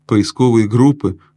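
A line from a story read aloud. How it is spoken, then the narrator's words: Snort. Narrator (Russian): фыркнул господин Бобер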